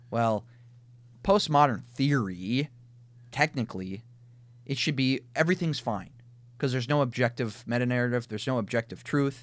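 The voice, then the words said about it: Minnesota accent. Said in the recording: “You're speaking from Minnesota again. ... My Minnesota accent.”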